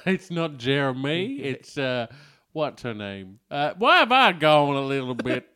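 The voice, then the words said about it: Picks up the other speaker's accent. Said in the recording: “I've embraced your accent.”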